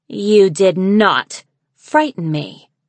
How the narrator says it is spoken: she growled

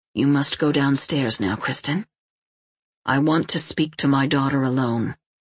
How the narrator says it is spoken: he said calmly

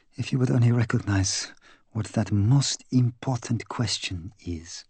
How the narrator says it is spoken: he said wistfully

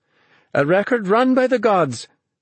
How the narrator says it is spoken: she cried

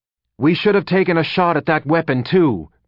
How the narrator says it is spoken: Pied snapped at the veteran

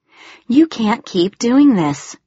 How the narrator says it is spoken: she groaned

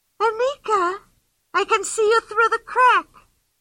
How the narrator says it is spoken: cried Pippi

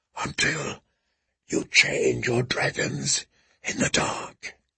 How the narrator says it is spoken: the grass whispered back

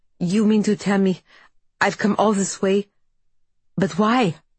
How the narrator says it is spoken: the man stammers

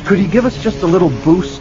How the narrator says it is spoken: Anakin pleaded

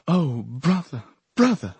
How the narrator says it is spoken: a woman's voice cried into my ear

